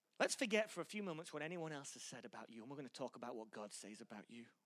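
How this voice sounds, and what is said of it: English accent. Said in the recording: “We're in England. I told you I had a stupid accent.”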